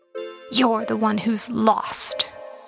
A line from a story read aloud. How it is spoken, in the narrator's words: she hissed